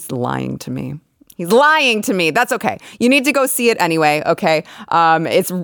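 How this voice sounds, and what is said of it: Usual voice. Nothing is said of it.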